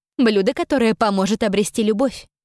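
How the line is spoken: Witch answering plainly. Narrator (Russian): ответила ведьма

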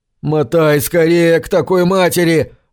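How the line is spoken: Yelled. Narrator (Russian): орал Курт

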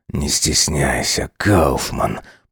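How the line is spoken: Growl. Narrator (Russian): прорычал Сайлос

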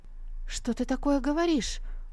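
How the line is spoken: Horrified exclamation. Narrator (Russian): в ужасе воскликнула Сандзю

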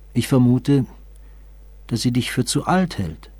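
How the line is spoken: Hesitant voice. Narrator (German): antwortete sie mit zögernder Stimme

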